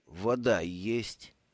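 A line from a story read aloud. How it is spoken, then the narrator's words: Slurred mumble. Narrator (Russian): заплетающимся языком пробормотал Брута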